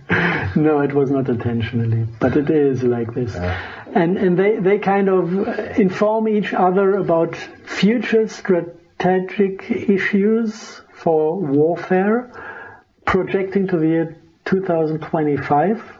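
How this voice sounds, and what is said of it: Thick German accent. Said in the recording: “I like the way you say NASA. Is that just your thick German accent, or are you putting a Z in there intentionally?”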